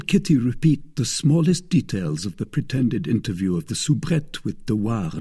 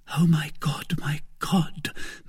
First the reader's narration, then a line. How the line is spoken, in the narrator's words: murmured Kitty